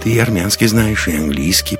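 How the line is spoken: Mumbling. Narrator (Russian): пробормотал Лекс

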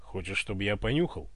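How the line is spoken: Growl. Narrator (Russian): рыкнул Иван

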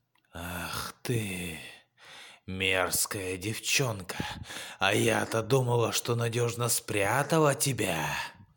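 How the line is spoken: Hissing witch. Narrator (Russian): зашипела колдунья

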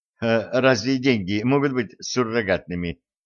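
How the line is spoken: Millionairess laughing. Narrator (Russian): засмеялась миллионерша

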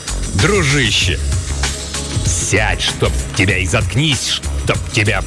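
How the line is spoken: Growled. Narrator (Russian): прорычал его агент по соцобеспечению

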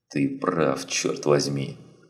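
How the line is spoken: Muttering. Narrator (Russian): пробормотал Андерсон

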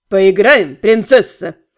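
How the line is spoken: Mocking question. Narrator (Russian): Насмешливо поинтересовался Эротиан

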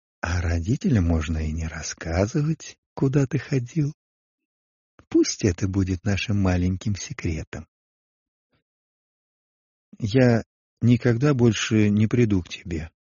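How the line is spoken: Calm but firm. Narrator (Russian): спокойно, но решительно сказал Агапе

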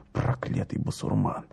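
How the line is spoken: Grumbled. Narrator (Russian): проворчал Спицын

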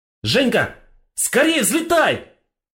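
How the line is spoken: Shouted. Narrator (Russian): закричал Тон

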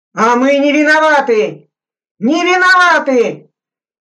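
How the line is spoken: Sudden hysterical shout. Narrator (Russian): вдруг истерически закричал шофер

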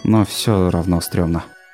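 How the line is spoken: Sighing. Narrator (Russian): Чандер вздохнул

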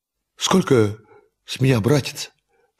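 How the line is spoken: Trembling voice. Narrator (Russian): спросил наш герой трепещущим голосом

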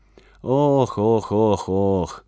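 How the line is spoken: Sighing. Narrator (Russian): вздохнул он

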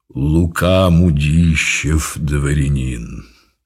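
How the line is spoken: Deep solid bass. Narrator (Russian): дородный видный господин и произнес солидным басом

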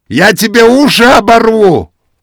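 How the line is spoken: Shouting. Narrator (Russian): крикнул Матвей Саввич

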